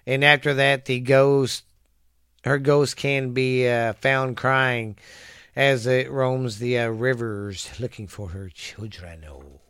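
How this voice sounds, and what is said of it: Hoarse, fading voice. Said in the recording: “Sorry if I'm losing my voice, guys. I'm not sick. It's just these allergies are kicking my ass”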